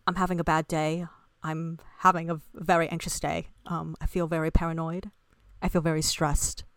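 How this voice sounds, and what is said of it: Poor put-on British accent. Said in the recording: “my really bad British accent”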